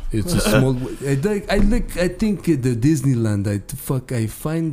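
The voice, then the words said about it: Put-on Russian accent. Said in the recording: “I want to try to talk to you for at least a couple minutes in a Russian accent”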